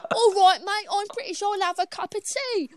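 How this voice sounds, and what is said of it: Exaggerated put-on British accent. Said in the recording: “You're British, innit? That's what it sounds like. ... we're going to stop with the accents. ... I'm just going to do someone injustice.”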